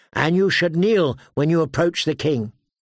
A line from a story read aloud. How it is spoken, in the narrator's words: Brian the Blue corrected sharply